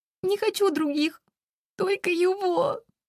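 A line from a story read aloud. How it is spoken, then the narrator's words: Wailing, sobbing. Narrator (Russian): Взвывает пуще прежнего, трясясь от рыданий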